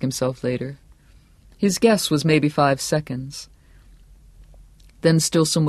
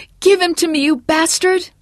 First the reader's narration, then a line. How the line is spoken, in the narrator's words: distant and full of terror, he heard a woman shriek